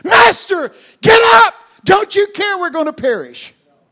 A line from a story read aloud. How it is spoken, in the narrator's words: in a spirit of paranoia screamed at Jesus